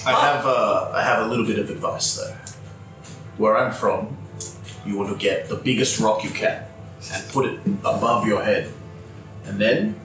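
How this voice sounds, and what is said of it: Put-on charming accent. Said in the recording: “What is this accent now? ... that's my charming one.”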